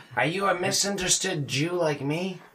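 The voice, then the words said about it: Bad character impression voice. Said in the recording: “was that a bad impression? ... You were kind of doing like a little Nicky.”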